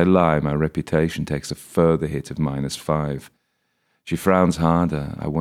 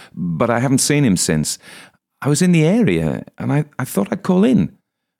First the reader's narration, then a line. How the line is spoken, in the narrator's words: I blurt